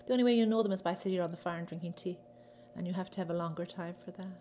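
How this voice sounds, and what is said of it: Irish accent. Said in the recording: “What else from Ireland did I bring with me? My accent. That'll never leave. ... I've never lost mine.”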